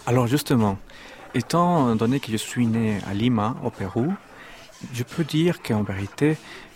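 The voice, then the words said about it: Slight Peruvian accent in French. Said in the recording (French): “vous êtes péruvien, on le perçoit un peu dans votre accent.”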